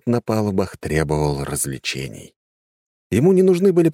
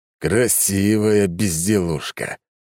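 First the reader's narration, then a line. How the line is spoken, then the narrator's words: Angry. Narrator (Russian): произнес он зло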